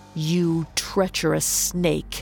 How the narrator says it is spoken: snarled

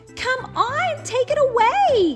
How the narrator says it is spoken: yelled Little Cat A

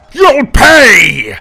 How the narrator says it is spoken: Tim roared

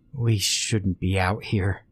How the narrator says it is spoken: he mumbled, repeating himself louder

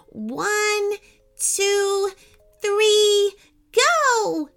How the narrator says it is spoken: shouted Katie

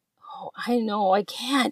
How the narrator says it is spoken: he groans

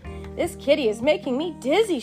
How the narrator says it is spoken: she groaned

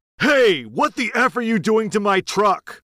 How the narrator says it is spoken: the husband came charging out of his front door yelling

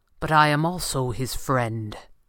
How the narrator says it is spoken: Fenwick said coldly

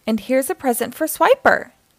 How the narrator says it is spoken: exclaimed Dora

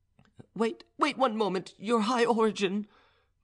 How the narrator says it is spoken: cried poor Gregory

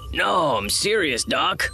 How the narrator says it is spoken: the Devaronian groaned, from the depths of melancholy

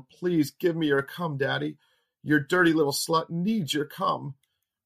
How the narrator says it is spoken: Between her moans and screams, she yelled

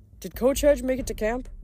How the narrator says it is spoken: Llewellyn giggled nervously

